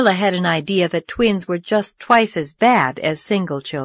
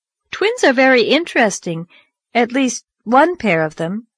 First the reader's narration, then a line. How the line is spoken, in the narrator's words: said Anne